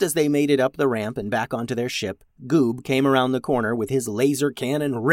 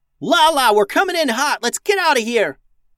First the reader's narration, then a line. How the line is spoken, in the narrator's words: Max yelled into her comms